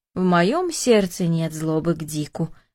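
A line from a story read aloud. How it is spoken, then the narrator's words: Calm old man. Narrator (Russian): спокойно ответил дедушка Даниил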